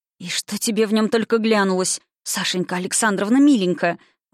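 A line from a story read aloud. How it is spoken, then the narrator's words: Breathless exhale. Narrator (Russian): Выдохнула Груня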